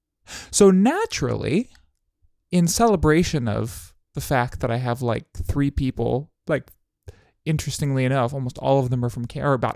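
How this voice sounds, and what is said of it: Excited, upbeat voice. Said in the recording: “I'm a little bit excited. So if you can't tell by my voice, it's kind of a fun day.”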